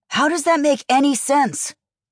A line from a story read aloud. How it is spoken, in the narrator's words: Gideon snapped, his sharp, angry signs matching his tone